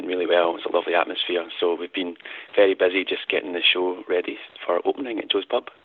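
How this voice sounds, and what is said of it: Scottish accent. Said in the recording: “you have a bit of an accent ... I am Scottish indeed, yeah, as you can tell from my accent”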